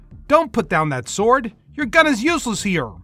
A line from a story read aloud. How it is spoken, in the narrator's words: he hollered back